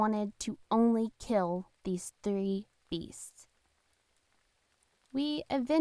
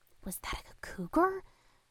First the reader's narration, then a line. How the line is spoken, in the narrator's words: Ricky hissed under his breath